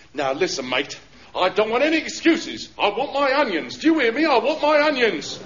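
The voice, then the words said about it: Angry shouting. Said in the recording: “What are you shouting for?”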